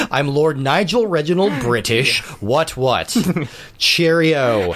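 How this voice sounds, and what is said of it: Mock posh British accent. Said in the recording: “you don't even have a British accent”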